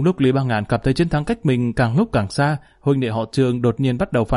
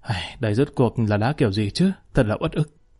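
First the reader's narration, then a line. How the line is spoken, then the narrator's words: Sighing. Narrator (Vietnamese): Trương Nhất Thủy ừ một tiếng thở dài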